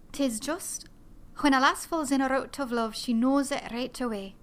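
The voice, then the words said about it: Put-on Scottish accent. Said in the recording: “I do these lines from the character Fiona from Brigadoon to get my Scottish accent”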